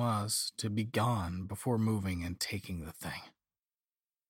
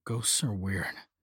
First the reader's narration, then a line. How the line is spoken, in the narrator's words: muttered to myself